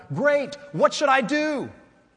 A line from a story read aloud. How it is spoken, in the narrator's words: The man was really happy now and shouted